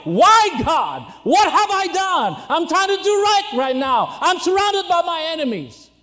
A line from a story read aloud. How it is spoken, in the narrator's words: Jehoshaphat cried